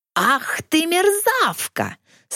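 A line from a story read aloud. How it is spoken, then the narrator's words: Hoarse old man's roar. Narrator (Russian): Старик хрипло взревел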